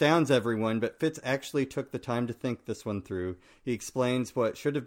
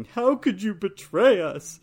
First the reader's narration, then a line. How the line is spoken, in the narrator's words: a sobbing Shade breaks in wailing